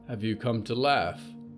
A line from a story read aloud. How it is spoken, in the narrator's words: Polly whispered through cracked lips